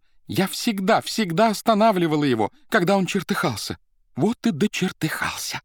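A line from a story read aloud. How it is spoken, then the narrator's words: Tender, nasal after crying, exclaiming. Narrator (Russian): красавица музыкальным нежным голосом, немного гнусавым после плача, воскликнула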